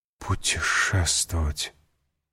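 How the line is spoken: Whispering. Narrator (Russian): прошептала госпожа Данглар

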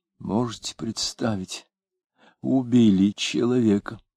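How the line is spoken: Quiet, surprised. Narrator (Russian): говоря негромко и удивленно

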